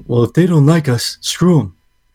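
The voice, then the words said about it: Bad imitation of another person's voice. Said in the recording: “I suck at. I have no good Trump impression. I apologize.”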